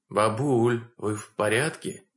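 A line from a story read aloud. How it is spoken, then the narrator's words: Trembling voice. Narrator (Russian): У меня дрогнул голос при виде маленькой сгорбленной фигурки в черном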